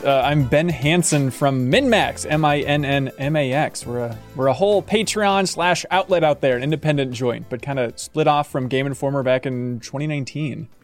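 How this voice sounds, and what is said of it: American accent. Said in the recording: “I apologize for my accent. ... an American.”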